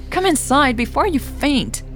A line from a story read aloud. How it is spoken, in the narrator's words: Becker yelled